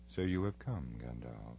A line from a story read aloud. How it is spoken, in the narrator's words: he said to me gravely, but in his eyes there seemed to be a white light, as if a cold laughter was in his heart